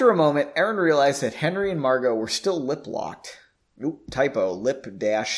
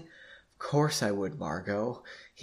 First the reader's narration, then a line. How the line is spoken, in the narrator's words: he responded softly